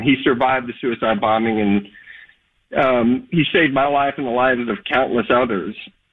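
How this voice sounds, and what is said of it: Emotional voice. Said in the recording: “I have to apologize if I get a little emotional”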